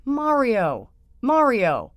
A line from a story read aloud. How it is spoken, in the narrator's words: my father bellowed